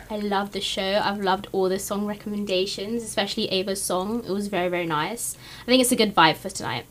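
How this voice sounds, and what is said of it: British accent. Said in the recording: “from her accent, ... from the UK”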